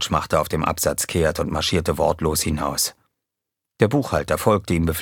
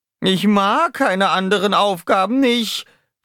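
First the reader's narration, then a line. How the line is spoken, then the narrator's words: Whining. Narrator (German): jammerte Dupi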